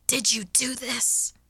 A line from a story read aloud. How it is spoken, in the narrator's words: I snapped hoarsely